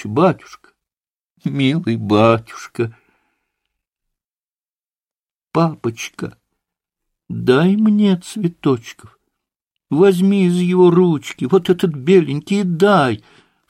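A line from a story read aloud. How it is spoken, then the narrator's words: Sobbing plea, distraught mother. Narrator (Russian): всхлипывая, попросила помешанная мамочка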